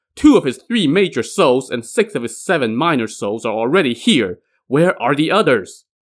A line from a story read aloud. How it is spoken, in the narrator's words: shouted